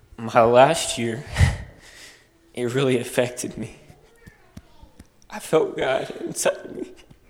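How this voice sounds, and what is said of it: Emotional, choked-up speech. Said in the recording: “sorry if I get a little emotional.”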